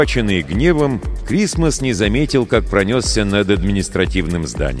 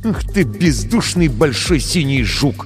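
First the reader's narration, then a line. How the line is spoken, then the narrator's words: Through gritted teeth. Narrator (Russian): процедил Крисмос сквозь зубы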